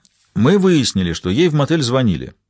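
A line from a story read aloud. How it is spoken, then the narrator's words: Plain. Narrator (Russian): ответил Джуревич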